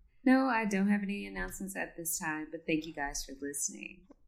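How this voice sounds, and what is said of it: Mildly sultry, seductive voice. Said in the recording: “Was that your sexy voice? ... Yeah, it was my like semi-sexy voice. ... The dial turned to like 3 or 4.”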